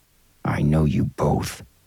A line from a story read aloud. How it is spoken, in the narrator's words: the businessman growled